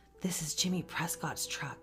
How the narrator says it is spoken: I breathed

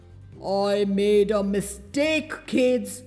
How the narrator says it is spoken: growled the other Santa

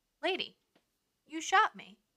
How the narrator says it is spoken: according to Bertha, he exclaimed

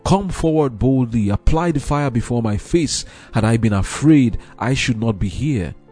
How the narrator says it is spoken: the martyr exclaimed

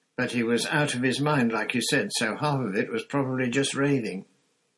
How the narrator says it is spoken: Ron said, in a falsely confident voice

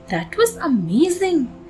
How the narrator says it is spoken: the baby mouse said to his mother, smiling happily

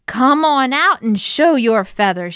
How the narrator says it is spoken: she yelled

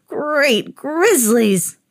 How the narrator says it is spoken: moaned the old man

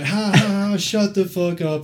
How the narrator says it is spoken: laughing

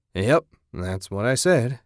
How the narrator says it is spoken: he grunted

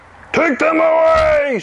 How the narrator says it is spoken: shouted the fat man

